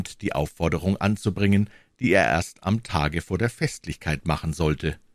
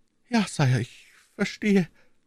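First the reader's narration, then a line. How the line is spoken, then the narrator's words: Queen stammering. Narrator (German): stammelte die Königin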